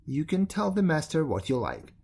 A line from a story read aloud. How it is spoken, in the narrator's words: said angrily